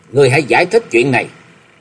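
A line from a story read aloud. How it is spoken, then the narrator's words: Irritated snap. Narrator (Vietnamese): Lục Kế Nghiệp cáu gắt nói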